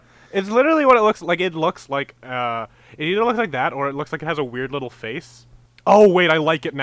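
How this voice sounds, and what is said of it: Usual voice. Nothing is said of it.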